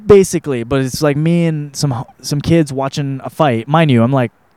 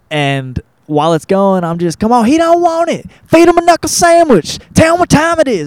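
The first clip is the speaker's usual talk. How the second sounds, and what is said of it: Put-on Southern American accent. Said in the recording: “I love using a southern accent.”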